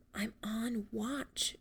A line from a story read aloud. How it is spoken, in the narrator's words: whispered in an even quieter voice